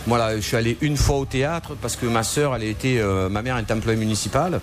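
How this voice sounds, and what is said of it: Very strong regional French accent. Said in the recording (French): “un accent gros comme une maison”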